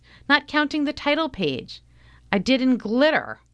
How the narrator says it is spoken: shouts

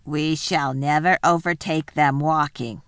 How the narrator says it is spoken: growled the dwarf

